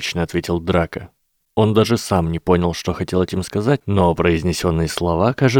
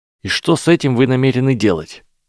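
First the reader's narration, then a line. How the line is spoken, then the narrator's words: Snapping back. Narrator (Russian): огрызнулся Гарри Поттер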